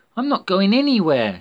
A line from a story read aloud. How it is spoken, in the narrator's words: shouted Natalia